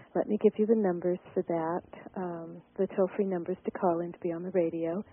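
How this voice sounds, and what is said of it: Breathless, out-of-breath speech. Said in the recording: “I'm a little bit out of breath... I'm out of breath.”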